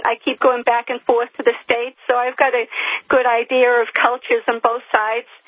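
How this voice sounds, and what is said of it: American accent. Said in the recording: “I'm an American who's been living in the UK for 28 years. I haven't lost my accent.”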